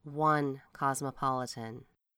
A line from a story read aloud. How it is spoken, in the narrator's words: With a sigh, we add